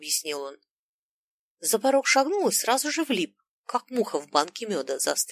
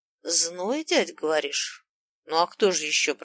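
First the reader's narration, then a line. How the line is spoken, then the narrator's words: Grumbled. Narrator (Russian): проворчал дядя Смел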